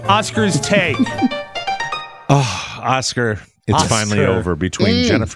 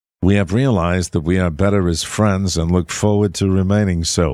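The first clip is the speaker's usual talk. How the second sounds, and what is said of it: Imitates another person's voice. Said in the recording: “Is that your Jennifer Lopez voice? ... my Jennifer Lopez impression.”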